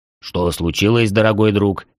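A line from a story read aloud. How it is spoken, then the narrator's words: Booming bass, dwarf. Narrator (Russian): прогудел басом гном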